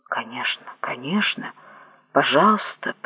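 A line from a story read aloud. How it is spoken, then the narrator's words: Mumbled. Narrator (Russian): пробормотал я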